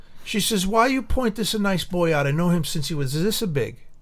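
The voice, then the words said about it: Put-on Italian accent. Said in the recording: “Oh no, she had the whole accent. ... She was like Mario.”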